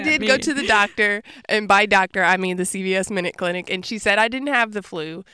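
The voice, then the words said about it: Sick, under-the-weather voice. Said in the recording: “you can tell in my voice, but I am a little bit sick under the weather”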